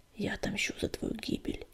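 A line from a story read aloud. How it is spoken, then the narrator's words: Quiet promise. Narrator (Russian): негромко пообещал он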